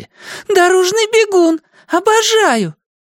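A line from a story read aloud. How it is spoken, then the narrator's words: Shrill piercing falsetto singing. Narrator (Russian): запела визгливым фальцетом, который буравил Калише мозг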